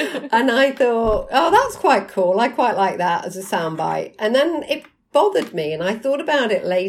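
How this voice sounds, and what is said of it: Usual voice. Nothing is said of it.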